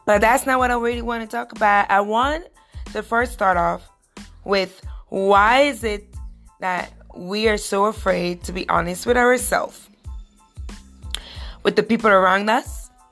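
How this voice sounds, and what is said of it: Hoarse, rusty, losing voice. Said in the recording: “excuse me for sounding very hoarsey and rusty. I'm losing my voice,”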